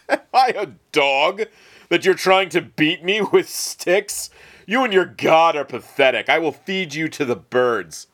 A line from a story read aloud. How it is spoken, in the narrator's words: the giant laughed, saying